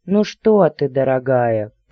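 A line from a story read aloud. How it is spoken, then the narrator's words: Deep voice from doorway. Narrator (Russian): пробасили от дверей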